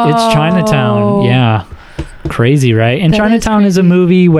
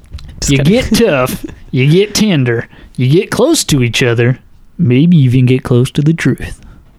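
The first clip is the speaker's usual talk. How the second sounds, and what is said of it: Put-on Southern accent. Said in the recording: “In a southern accent.”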